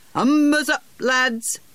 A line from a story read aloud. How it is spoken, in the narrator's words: the coxswain shouted